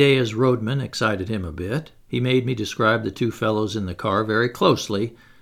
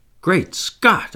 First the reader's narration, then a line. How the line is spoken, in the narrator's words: I cried